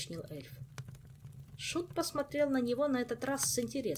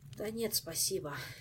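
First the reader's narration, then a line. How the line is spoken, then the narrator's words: Sighing. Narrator (Russian): вздохнул Жак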